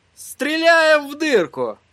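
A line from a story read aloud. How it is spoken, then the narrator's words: Joyful announcement. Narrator (Russian): радостно возвестил он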